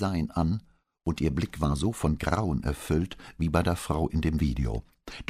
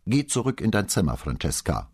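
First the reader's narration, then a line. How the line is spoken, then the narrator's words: Cool commanding mother. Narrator (German): befahl ihre Mutter und überraschte Brunetti mit dem kühlen Ton, in dem sie das sagte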